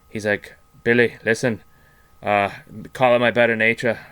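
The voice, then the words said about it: Put-on gypsy accent. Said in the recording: “your gypsy accent is way better than whatever bullshit Santa Claus accent you came in with”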